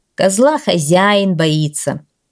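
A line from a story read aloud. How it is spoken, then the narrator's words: Plain. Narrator (Russian): сказал Караковый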